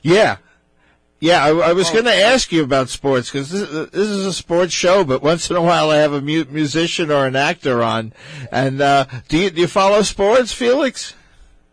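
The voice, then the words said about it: Strained, worn-out voice. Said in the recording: “I apologize for my voice tonight, folks. I was at the Islander game, two nights ago.”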